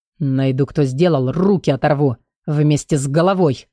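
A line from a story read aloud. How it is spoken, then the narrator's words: Growling. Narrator (Russian): прорычал детектив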